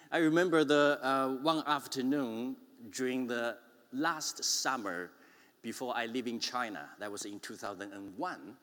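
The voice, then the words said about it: Strong Chinese accent. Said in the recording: “a strong Chinese accent”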